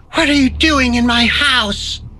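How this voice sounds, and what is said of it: Ghostly woman's voice. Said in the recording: “in her own ghostly voice”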